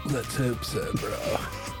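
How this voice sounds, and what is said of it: Stoner voice. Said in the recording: “doing your stoner voice”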